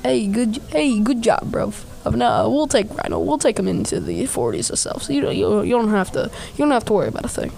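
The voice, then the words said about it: Character voice with an accent. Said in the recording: “Don't know why I gave him an accent, but he has an accent.”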